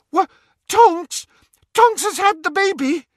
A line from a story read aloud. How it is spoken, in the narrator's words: Hermione shrieked